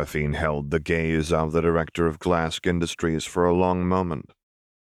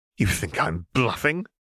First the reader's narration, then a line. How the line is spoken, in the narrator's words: she snapped